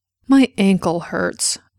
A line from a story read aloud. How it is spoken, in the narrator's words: Cordelia grumbled